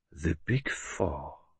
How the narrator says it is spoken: murmured Poirot

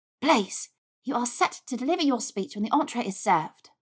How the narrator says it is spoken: Pansy whispered sharply

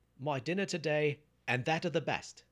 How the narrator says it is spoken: he shouted

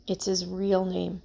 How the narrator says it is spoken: said quietly

